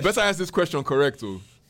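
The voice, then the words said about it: Put-on Nigerian accent. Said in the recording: “I'm going to answer all my questions in African voice, in my Nigerian voice.”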